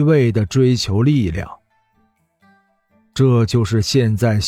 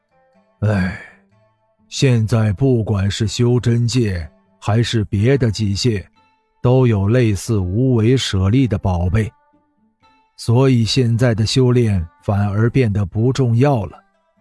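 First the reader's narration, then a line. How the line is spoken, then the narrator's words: Sighing. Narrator (Chinese): 牧明叹息道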